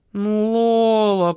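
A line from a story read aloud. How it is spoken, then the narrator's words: Drawn-out, repentant. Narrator (Russian): протянул Маркиз покаянным тоном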